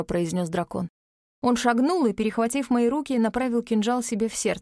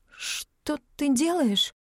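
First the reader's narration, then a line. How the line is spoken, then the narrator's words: Strained dry-throated question. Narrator (Russian): В горле так пересохло, что я едва выдавила из себя вопрос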